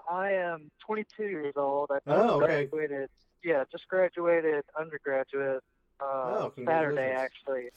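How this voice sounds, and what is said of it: Southern American accent. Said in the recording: “you're from the South, as I can tell from your voice”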